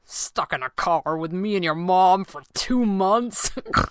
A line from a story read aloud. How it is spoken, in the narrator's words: He laughed, and it came out as a little snort like it sometimes did